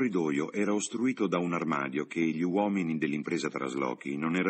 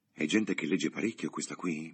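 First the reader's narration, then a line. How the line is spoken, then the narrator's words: Whispered. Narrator (Italian): bisbigliò Freddy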